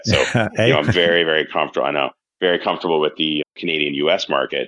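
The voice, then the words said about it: Canadian accent. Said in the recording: “I'm originally from Canada, if you haven't picked up the accent yet.”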